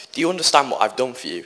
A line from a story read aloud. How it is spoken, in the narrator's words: asked